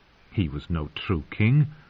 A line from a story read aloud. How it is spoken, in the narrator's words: Denny said scornfully